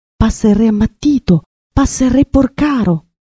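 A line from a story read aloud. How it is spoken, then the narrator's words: Murmuring, stifling laughter. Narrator (Italian): tutti soffocavano le risa, mormorando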